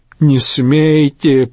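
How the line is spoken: Groaning. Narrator (Russian): простонал Рейнован

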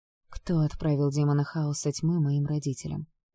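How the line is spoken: Dull, hollow voice. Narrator (Russian): повторила я глухим голосом

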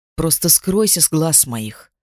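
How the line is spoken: Muttered. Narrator (Russian): пробормотала я

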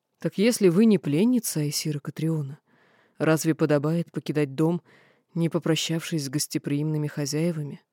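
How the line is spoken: Calm. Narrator (Russian): спокойно ответила

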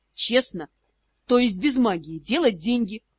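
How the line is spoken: Snort. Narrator (Russian): хмыкнул Ас

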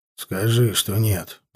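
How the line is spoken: Grumbling man. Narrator (Russian): проворчал мужик

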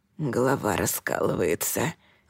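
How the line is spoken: Grumbling. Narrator (Russian): ворчал он

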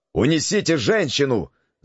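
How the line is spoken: Shouted. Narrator (Russian): закричал Валамбрес

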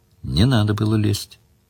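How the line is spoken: Calm. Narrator (Russian): спокойно сказала Мара

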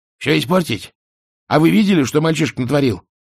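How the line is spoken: Snapping back. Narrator (Russian): огрызнулся Альберт

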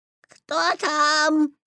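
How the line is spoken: Imitating grandmother's voice. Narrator (Russian): спросил Петя, стараясь говорить бабушкиным голосом

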